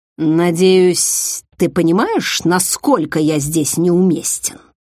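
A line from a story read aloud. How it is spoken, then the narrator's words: Displeased grumble. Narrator (Russian): Даже не пытаясь скрыть недовольство, проворчал инкуб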